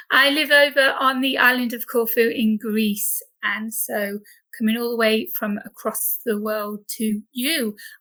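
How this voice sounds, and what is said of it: British accent. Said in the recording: “as you can tell by my accent, I am British.”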